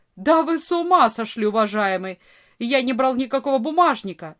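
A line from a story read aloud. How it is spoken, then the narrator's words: Furious shout. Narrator (Russian): Вор ... яростно закричал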